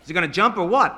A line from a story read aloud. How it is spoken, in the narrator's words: the fireman shouted